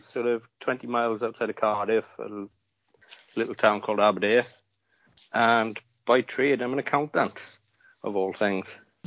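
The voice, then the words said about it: Welsh accent. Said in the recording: “with the accent, we know where you're from ... the Welsh accent is coming out. It's brilliant.”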